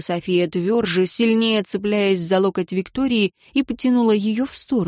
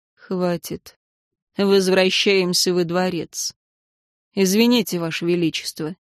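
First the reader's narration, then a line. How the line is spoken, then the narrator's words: Cold male voice. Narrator (Russian): мужчина холодно сказал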